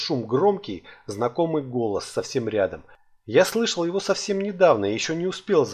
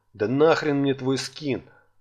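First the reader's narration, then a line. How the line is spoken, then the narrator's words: Snorting dwarf. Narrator (Russian): фыркнул гном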